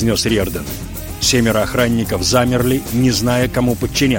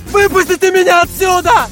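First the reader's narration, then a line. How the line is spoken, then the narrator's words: Scream, youngest. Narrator (Russian): завопил младший из них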